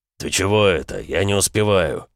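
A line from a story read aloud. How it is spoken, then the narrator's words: Gruff mutter. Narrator (Russian): буркнул бронзовый ВР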